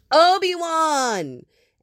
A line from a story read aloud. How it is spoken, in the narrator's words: Anakin hollered from the back corner